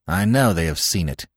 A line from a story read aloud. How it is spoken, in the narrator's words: snapped Smith